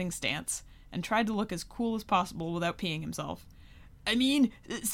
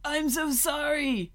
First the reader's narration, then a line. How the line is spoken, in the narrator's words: he shouted